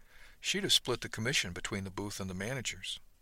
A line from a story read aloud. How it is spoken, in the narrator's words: The captain smiled, though, and said softly